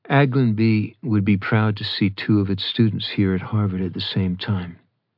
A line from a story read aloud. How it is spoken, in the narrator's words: Adam replied evenly